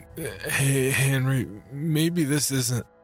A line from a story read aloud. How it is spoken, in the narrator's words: Weakly, I interjected